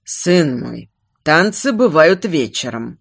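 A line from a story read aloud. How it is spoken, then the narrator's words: Gentle remark. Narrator (Russian): мягко заметил Эстарм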